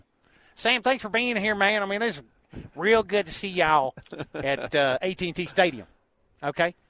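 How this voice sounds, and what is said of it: Jerry impression, Southern Texas accent. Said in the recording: “our best Southern accent ... the Texas accent ... I just do a Jerry impersonation”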